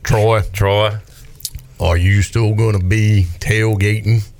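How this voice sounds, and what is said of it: Poor impression of Robert Jones. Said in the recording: “your Robert Jones impression ... that's about as bad as his offensive line impersonation”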